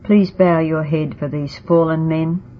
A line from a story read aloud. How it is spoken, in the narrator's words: I said sadly